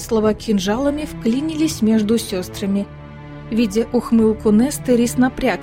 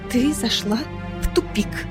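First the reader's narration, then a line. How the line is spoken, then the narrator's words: Quiet trembling voice. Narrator (Russian): Тихо, дрожащим голосом произнесла Фейра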